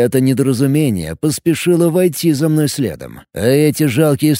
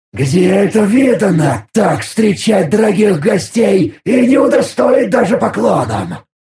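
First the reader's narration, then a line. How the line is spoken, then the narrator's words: Disappointed hiss. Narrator (Russian): Разочарованно прошипел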